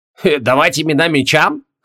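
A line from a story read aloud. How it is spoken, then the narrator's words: Skeptical snort. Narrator (Russian): хмыкнул Тигран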